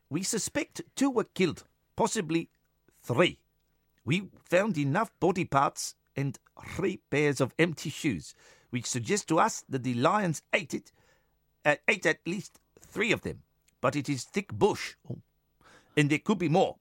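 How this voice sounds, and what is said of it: Consistent South African accent. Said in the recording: “Consistent South African accent. Well done.”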